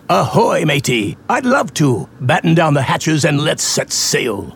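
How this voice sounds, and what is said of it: Pirate character voice. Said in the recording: “Why are you talking like a pirate?”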